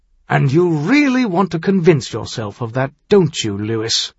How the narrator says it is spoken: told himself with a sour snort

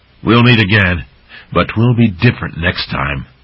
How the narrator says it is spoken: Jeltor pointed at the troop and snarled

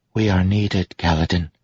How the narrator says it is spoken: Syl said softly

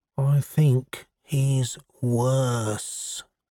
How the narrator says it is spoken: John lowered his voice until it was barely audible

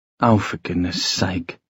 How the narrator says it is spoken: Sophie muttered

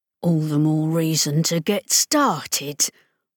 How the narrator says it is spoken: Rollo replied through clenched teeth

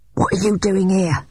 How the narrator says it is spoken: she hissed

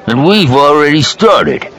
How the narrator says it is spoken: the pudgy man said, his voice surly

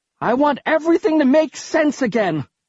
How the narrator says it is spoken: I screamed

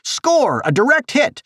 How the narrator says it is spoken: shouted

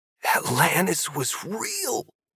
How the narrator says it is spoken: Brewster gasped

